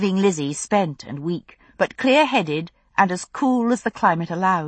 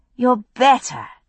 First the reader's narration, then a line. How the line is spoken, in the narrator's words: Brianna exclaimed